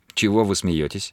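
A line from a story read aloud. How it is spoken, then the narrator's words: Plain. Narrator (Russian): спросила Паула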